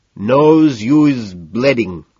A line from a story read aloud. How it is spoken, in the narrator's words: in a thick, nearly impenetrable accent says